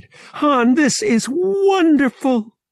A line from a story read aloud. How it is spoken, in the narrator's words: cried